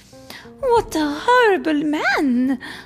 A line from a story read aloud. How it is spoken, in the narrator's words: Duchess cried